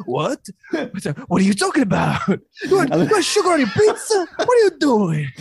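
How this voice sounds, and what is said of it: Put-on exaggerated Italian accent. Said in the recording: “That go-to Italian accent.”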